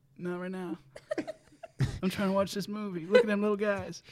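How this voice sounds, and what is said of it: Bill Clinton impression. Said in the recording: “his Bill Clinton impression ... he was doing Bill Clinton trying to focus on Space Jam”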